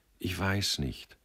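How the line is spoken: Quiet. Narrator (German): sagte er leise

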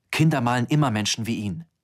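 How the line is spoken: Curt, brusque. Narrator (German): sagte ich schroff

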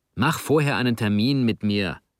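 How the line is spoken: Hissing. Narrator (German): zischte Juvi

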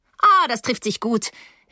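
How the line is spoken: Calling from above. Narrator (German): rief Paula von oben

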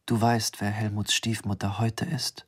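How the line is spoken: Quiet question. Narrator (German): fragte er leise

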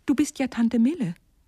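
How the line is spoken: Calling out. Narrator (German): rief ich

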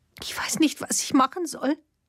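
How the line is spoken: Weak, sobbing. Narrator (German): sagte sie matt zwischen 2 Schluchzern

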